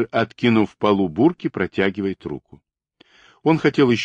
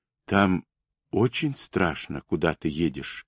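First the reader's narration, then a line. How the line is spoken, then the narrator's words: Quiet question. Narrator (Russian): спросила тихо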